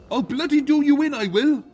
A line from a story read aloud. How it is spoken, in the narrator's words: hollering